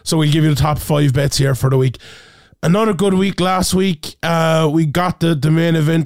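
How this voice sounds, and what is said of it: Hoarse, sick-sounding voice. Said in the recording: “You can probably hear my voice a little bit worse for wear ... my voice is a little bit gone. A little bit fluey, a little bit sick.”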